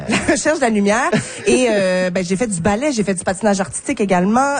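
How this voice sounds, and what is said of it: Strong regional French accent. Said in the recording (French): “avec mon accent de même là”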